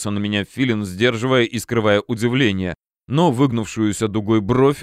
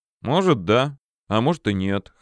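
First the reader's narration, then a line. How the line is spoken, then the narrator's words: Snorting. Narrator (Russian): хмыкнул я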